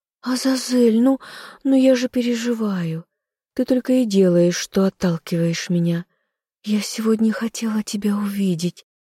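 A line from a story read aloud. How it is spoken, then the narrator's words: Timid secretive whisper. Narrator (Russian): робко зашептала она, словно рассказывая самую большую тайну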